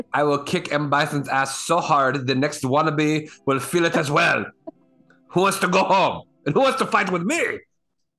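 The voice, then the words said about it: Imitated Belgian accent. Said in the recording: “with his Belgian accent... Yes, Belgian accent.”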